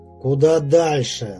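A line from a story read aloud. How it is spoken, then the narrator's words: Angry repetition. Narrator (Russian): зло повторил Игорь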